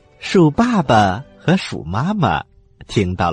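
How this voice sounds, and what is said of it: Usual voice. Nothing is said of it.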